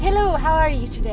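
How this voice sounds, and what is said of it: Put-on Asian-Irish accent. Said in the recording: “a mixture of Asian and Irish ... That's an amazing accent. I wasn't expecting you to do so well on that one.”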